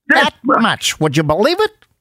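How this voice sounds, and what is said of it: Maxwell Smart impression, Don Adams voice. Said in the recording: “I can do good, Maxwell Smart ... That's a very good Don Adams.”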